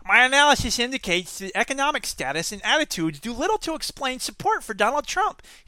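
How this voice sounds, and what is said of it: Nerdy character voice. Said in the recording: “he's a nerd, so let's do a nerd voice.”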